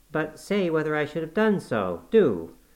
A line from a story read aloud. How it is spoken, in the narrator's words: she exclaimed in an irritated tone